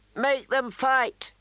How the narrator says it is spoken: Lord Robert called out

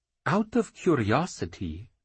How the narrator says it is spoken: Crafty said, lowering his voice with mock caution

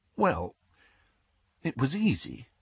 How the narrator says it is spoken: said Hermione in a small voice

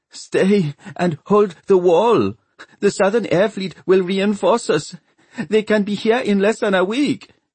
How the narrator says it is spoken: The Kerelan girl, Satya, was trying to rally some panic-stricken soldiers, sobbing

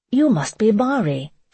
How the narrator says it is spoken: she exclaimed

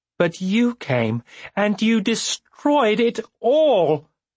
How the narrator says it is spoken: She shrieked the last words

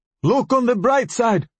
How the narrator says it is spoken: Farage shouted to Abu Anmar

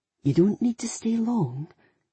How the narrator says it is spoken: he said, his voice soft and patient

